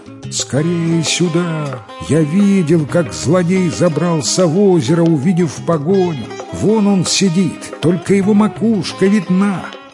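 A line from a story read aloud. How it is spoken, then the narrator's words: Loud shout. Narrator (Russian): громко закричал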